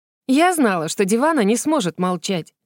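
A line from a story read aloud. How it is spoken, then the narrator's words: Snorting. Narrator (Russian): Гвин фыркнула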